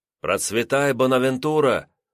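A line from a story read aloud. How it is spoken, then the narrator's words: Shouted reply. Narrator (Russian): выкрикнул в ответ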